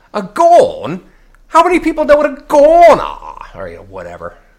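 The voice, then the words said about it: Bad put-on English accent. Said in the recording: “My bad English accent.”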